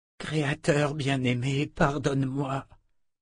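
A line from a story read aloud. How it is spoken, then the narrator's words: Dying woman's murmur. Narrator (French): murmura la sœur de la lumière agonisante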